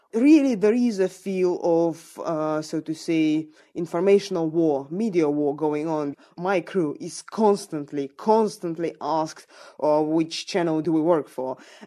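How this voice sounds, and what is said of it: Russian accent. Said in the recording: “by my accent, they can judge that I'm from Russia myself”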